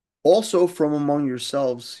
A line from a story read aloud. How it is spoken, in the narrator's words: says